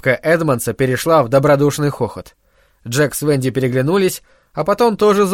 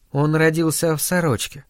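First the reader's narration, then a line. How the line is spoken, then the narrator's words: Uncertain. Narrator (Russian): неуверенно сказала Венди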